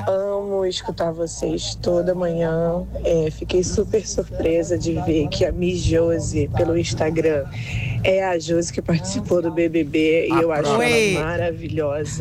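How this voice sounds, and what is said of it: Carioca Brazilian Portuguese accent. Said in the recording (Portuguese): “E eu adoro este sotaque carioca. ... É lindo, né? ... Carioca.”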